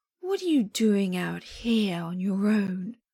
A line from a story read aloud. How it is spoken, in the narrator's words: Wen Chao drawls